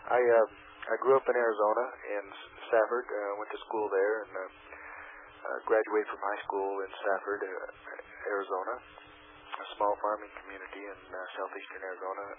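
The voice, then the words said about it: Hoarse, strained voice from a cold. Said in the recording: “I apologize again for my voice. I'm losing my voice. I've got a little bit of a sore throat and a cold”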